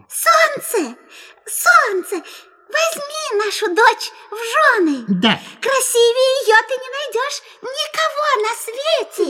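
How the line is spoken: Tender mouse squeak. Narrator (Russian): мышь-мать пропищала нежным голоском

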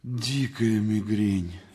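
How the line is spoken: Suffering whisper. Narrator (Russian): Актер со страдальческими помутневшими глазами шептал

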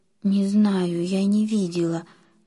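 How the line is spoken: Frightened whisper. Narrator (Russian): испуганно прошептала Лиля

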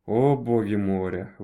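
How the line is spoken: Breathless exhale. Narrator (Russian): выдохнул островитянин

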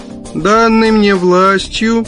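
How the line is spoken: Nasal drone. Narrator (Russian): загнусавил он

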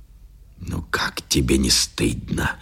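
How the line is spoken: Whisper. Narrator (Russian): шептал он

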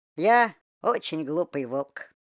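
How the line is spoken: Sighing. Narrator (Russian): вздохнул Вова

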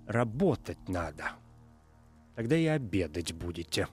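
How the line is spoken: Quiet, venomous voice. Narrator (Russian): кто-то за спиной тихо ядовитым голосом произносит

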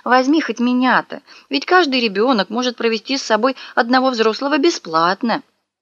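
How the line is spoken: Grandmother's pleading. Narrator (Russian): бабушка взмолилась

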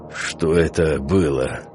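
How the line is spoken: Indistinct male grumble. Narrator (Russian): пробурчал он невнятно

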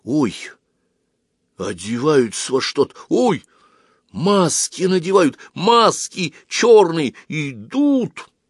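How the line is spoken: Hurried whisper. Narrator (Russian): торопливо прошептал

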